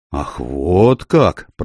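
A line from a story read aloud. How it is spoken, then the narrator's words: Muttering. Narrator (Russian): пробормотал он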